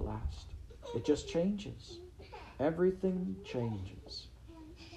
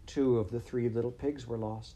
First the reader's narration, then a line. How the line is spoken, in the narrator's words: Elodie sighed